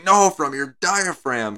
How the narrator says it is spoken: he starts screaming

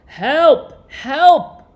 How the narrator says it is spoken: cried the page

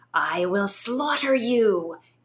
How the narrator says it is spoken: its nine voices screeched

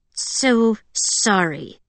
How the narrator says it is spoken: Pearl said through her teeth

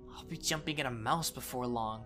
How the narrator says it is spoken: he muttered

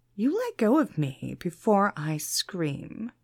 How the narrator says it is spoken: she replied icily

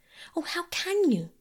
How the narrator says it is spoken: cried Phyllis

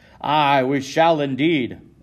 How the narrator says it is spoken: another man yells in agreement

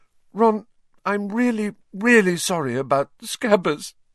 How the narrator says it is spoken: she sobbed

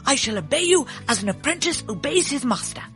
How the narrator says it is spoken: cried the fox

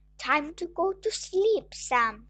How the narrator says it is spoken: she said

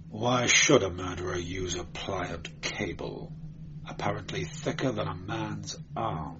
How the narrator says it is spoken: He muttered

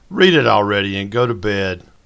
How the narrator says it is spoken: Mary Alice called out

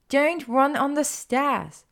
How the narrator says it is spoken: Hermione yelled after her, an amused little smile on her face

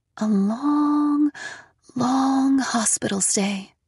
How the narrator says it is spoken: she said in a voice just above a whisper

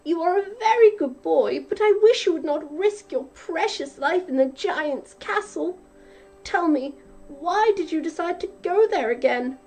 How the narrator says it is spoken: cried his mother

